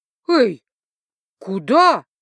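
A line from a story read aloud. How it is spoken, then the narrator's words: Stunned exclamation. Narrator (Russian): Ошеломленно воскликнула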